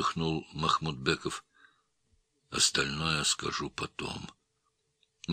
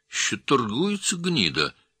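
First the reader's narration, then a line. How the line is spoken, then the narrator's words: Cheerful male voice. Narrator (Russian): весело сказал он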